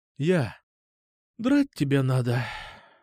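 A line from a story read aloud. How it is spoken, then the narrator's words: Relieved sigh. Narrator (Russian): Облегченно вздохнула она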